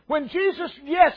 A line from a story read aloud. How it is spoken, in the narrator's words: He cried out